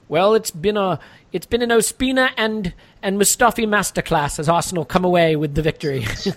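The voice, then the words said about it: Badly done put-on accent. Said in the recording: “sorry for the accent there, guys. That's dreadful.”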